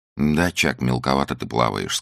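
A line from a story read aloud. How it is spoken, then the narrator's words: Calm. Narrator (Russian): сказала она спокойно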